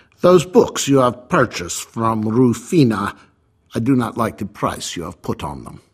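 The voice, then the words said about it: Put-on Russian accent. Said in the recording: “All of a sudden he had a Russian accent.”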